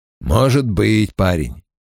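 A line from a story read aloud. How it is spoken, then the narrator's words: Mumbling, then coughing. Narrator (Russian): пробурчал Том и закашлялся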